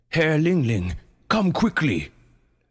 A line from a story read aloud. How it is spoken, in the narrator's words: barked a portly sea lion messenger